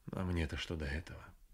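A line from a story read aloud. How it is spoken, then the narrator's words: Timid, stiff speech. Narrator (Russian): Первые слова с трибуны она произнесла несмело и скованно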